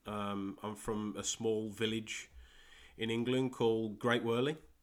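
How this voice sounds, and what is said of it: English Midlands accent. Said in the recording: “I'm from England, as you can probably tell from my dodgy Midland accent.”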